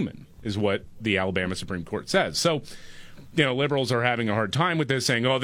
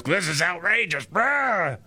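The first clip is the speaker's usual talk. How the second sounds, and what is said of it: Imitates another person's voice. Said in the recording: “It's a good imitation.”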